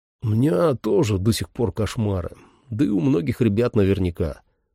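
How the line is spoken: Plain. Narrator (Russian): сказал он мне

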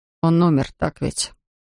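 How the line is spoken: Quiet confession. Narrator (Russian): она тихо призналась

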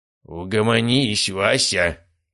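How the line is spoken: Growled. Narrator (Russian): рыкнул, оторвавший лицо от подушки Герасимов

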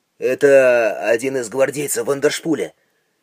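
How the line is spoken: Quiet. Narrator (Russian): тихо сказал Рейнер

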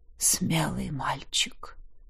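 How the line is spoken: Sudden whisper. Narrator (Russian): вдруг прошептала лекарка

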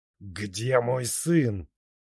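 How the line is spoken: Growl. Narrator (Russian): Коннингтон прорычал

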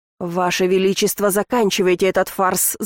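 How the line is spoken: Growled. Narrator (Russian): зарычал Рейнмар

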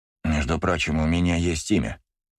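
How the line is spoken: Grumbling. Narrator (Russian): проворчал Юрий Коби

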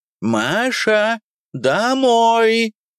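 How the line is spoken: Shouted. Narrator (Russian): крикнула

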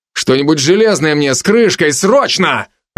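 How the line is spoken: Growled. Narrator (Russian): рыкнул я

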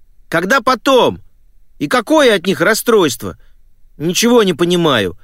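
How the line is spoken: Offended shout. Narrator (Russian): обиженно прокричал Том

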